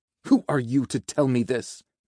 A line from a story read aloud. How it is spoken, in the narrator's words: Azazel spat